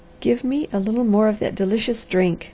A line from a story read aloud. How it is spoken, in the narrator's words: she said